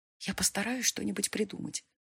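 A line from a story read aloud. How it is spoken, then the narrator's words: Whisper. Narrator (Russian): шепнула я Коре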